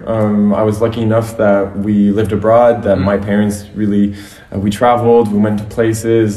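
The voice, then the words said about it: Slight American accent. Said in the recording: “I have kind of an American accent.”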